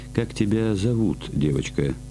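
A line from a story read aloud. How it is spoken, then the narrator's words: Plain. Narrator (Russian): спросил Грик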